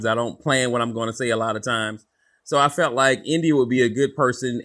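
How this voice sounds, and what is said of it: Southern accent with slight twang. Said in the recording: “down home Southern. I got a little twang in my voice”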